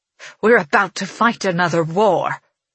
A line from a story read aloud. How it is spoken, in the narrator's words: she sneers